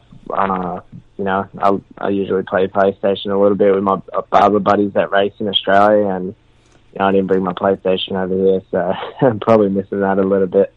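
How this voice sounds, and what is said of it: Australian accent. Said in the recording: “Do they appreciate the accent? ... I'm from Australia. We must have our lingo, whatever, the way we talk ... oh, I love your accent”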